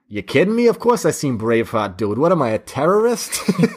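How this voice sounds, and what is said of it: Boston accent. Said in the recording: “this one guy with his Boston accent said”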